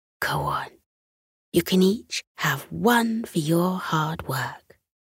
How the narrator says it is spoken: whispered

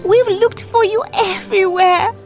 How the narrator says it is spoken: She cried out

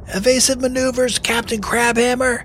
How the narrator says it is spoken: cried Finn

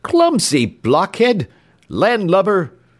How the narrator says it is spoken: cried Mr

